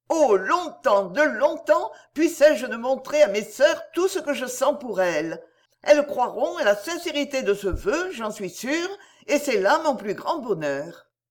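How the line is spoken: Startled exclamation. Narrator (French): frappée de l'image qu'elle allait présenter, et s'écria

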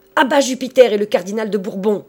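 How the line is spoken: Clerks yelling together. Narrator (French): vociféraient Robin Poussepain et les autres clercs

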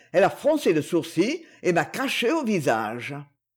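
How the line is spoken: Man murmuring. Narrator (French): murmura-t-il

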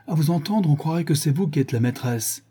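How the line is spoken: Exclaimed. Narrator (French): s'écria-t-elle

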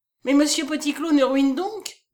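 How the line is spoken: Exclaimed. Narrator (French): s'écria-t-elle

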